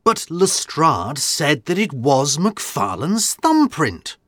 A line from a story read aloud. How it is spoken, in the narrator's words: said Watson excitedly